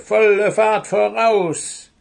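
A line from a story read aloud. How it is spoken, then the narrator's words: Croaking. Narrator (German): krächzte die Krähe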